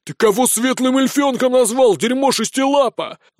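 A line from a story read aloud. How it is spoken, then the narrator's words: Young man's roar. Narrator (Russian): взревел парень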